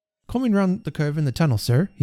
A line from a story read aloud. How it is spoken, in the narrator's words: he said